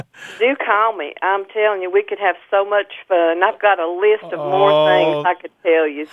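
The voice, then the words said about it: East Tennessee West Carolina accent. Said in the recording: “an East Tennessee, West Carolina accent”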